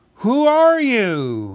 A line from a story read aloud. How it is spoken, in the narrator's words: he called in a very loud voice